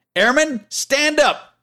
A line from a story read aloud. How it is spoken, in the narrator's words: the instructor shouted